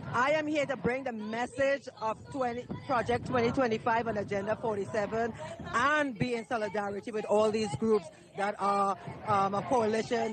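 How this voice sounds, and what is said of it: Slight Caribbean accent. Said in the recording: “I hear a bit of an accent. Are you Caribbean?”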